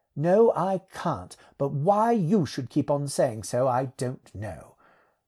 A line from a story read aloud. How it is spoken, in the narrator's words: said nothing for a minute, then rather crossly